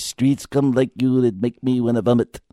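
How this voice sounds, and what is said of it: Imitates another person's voice. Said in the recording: “That's Bronson, my Bronson impression”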